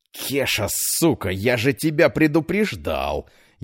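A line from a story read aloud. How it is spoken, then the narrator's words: Pained hiss. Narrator (Russian): Едва превозмогая боль, прошипел Петр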